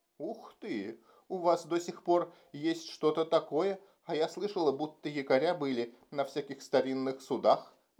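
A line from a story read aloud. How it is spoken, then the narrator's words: Exclaimed. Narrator (Russian): воскликнула Ева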